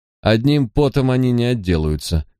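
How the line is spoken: Gloomy remark. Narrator (Russian): мрачным тоном заметил Винсент

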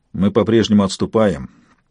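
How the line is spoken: Gloomy reply. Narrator (Russian): мрачно ответил пилот

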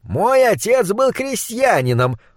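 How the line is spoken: Loud proclamation. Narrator (Russian): громко провозгласил фон Хельрунг

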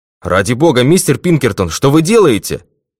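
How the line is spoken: Shouting colonel. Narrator (Russian): крикнул полковник

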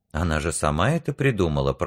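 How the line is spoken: Mutter. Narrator (Russian): пробормотал Журка

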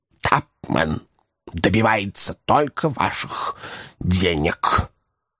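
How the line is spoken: Muffled, conflicted. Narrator (Russian): боролся с противоречивыми чувствами, глухо произнес

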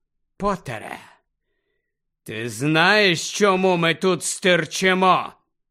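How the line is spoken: Menacing question. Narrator (Ukrainian): запитав Снейп погрозливим голосом

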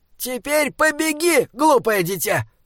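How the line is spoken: Shouted. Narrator (Russian): крикнул Бинабик

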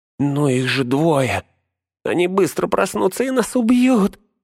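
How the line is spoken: Whining, giving in. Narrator (Russian): заскулил Смегрл, сдаваясь

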